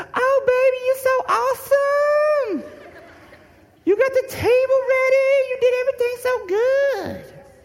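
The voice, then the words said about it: Imitation of his wife's voice. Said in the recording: “my impersonation of her”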